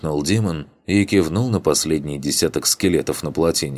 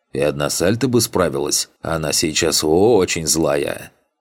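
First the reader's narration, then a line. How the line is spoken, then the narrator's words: Conspiratorial tone. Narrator (Russian): Маг заговорческим тоном продолжил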